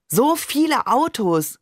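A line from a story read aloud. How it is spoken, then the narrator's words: Called out. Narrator (German): rief ich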